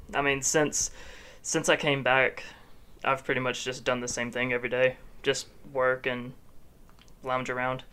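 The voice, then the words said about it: Flat, sad, depressed-sounding voice. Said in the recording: “I sound depressed. ... You do sound very depressed. Sad.”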